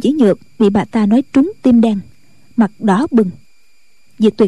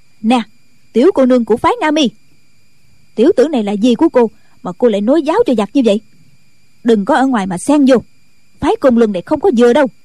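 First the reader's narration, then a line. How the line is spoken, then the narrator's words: Angry loud shout. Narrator (Vietnamese): Ban Thục Nhàn đã dựng ngược mày tầm, quát lớn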